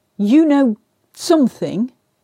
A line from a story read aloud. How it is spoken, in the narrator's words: Trevanion said sternly